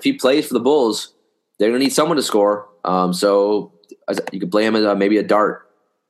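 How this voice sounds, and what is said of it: Hoarse, congested voice. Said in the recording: “I'm starting to get my hoarse, my nose stuffed.”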